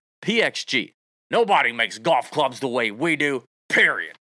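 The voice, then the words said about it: Bob Parsons impression. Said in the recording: “Is that a pretty good Bob Parsons impression?”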